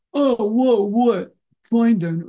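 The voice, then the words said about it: Imitates another person's voice. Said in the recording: “I'm actually imitating somebody in specific”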